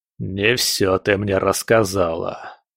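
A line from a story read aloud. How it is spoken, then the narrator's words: Through gritted teeth. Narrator (Russian): процедил Легба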